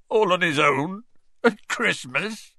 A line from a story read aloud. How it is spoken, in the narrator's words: choked Hagrid